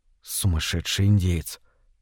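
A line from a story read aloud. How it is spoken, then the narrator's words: Whisper. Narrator (Russian): прошептал Дэвид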